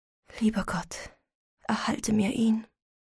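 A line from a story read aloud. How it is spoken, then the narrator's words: Soft trembling voice. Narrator (German): sprach leise mit bebender Stimme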